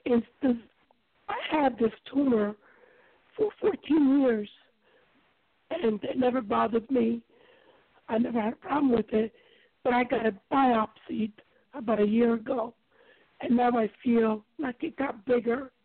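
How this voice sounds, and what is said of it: Stuffy, congested voice. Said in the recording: “I'm sorry I have a cold right now”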